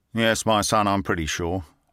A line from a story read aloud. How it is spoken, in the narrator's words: replied Gilder dryly